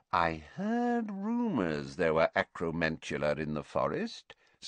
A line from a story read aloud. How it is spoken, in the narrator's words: said Slughorn softly